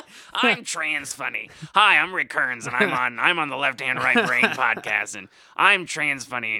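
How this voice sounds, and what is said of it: Imitates another person's voice. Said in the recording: “that's such a good Rick impression, actually”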